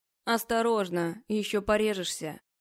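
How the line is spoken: Cold statement. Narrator (Russian): холодно заявляет Чертков

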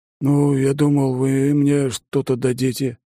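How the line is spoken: Uncertain mumble. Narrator (Russian): неуверенно пробормотал Бонд

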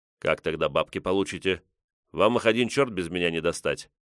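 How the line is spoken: Calm. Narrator (Russian): спокойно отвечал

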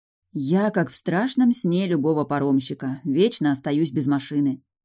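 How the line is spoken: Heavy sigh. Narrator (Russian): проговорила Кира, тяжело вздохнув

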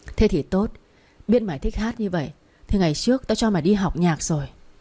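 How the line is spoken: Sighing. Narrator (Vietnamese): Bà Huệ thở dài một tiếng

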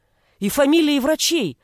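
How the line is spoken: Shouted out. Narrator (Russian): выкрикнул Никита

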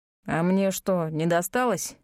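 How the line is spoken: Grumbling mutter. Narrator (Russian): буркнул Ригерт

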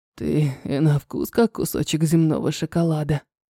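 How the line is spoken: Hoarse. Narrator (Russian): хрипло сказал он

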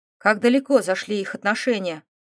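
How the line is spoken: Cold question. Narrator (Russian): холодно поинтересовался он

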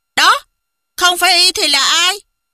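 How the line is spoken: Sharp shout. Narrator (Vietnamese): Hoàng Dung chỉ quát tỉnh nói

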